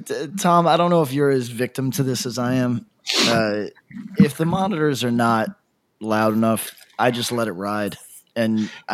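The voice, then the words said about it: Voice sounds different, strained from yelling. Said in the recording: “my voice is a little different ... Really yelling like an idiot for 40 minutes”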